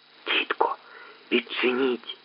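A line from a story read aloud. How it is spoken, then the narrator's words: Quiet whisper. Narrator (Ukrainian): тихо прошепотів Петр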